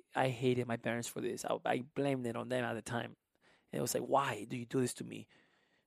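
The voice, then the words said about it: Thick non-native English accent. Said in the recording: “I still have a thick accent.”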